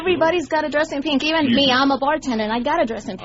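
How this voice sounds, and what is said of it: Cuban accent. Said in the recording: “Where's that accent from? ... I'm Cuban”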